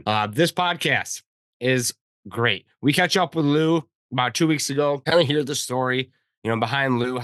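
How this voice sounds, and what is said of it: Slightly weird, ill-sounding voice. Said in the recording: “my voice sounds a little bit weird. I'm dealing with day three of influenza B”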